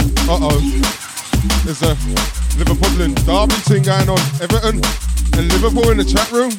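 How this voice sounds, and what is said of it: Usual voice. Nothing is said of it.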